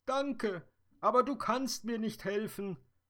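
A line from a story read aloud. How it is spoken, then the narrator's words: Sobbing. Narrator (German): schluchzte die Traumfee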